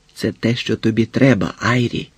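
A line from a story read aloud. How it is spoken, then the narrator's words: Warm, familiar whisper. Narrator (Ukrainian): прошепотіла їй Джойс по-родинному, наче вони зналися вже 5 років, а не 5 хвилин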